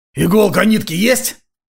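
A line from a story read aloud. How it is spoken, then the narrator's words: Hoarse question. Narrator (Russian): хрипло уточнил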